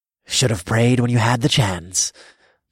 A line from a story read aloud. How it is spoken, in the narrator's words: chuckled